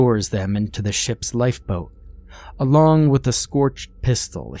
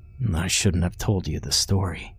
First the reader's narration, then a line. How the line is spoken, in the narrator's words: he mumbles